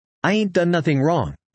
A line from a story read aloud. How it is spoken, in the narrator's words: I said